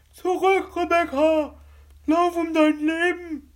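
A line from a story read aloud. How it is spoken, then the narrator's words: Shouting. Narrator (German): schrie Grisby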